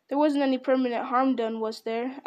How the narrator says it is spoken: asked Frodo anxiously

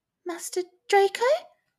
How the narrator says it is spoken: squeaked

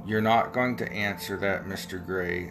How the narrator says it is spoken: said Mr

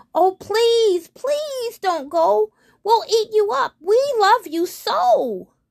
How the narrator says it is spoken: the wild things cried

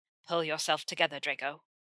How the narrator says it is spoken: his father mutters through gritted teeth

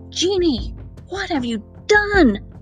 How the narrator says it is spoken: Aladdin shouted

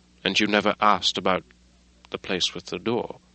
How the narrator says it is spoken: said Mr

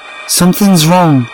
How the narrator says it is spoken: I shouted

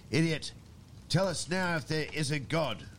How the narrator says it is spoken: the voice cried

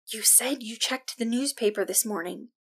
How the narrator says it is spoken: Nyx hissed

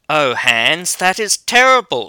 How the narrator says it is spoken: exclaimed

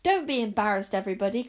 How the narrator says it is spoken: cried Zar

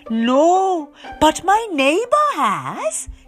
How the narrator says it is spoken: he exclaimed

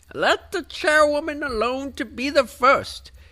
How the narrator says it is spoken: cried she who had entered first

